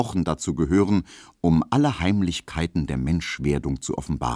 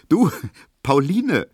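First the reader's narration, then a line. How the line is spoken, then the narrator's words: Laughing call. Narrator (German): rief Emil Kubinke lachend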